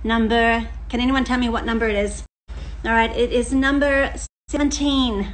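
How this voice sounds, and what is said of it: Slips into an American accent. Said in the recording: “did I just say that with an American accent? I think I did.”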